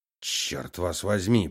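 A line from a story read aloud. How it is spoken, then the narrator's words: Muttered. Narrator (Russian): пробормотал он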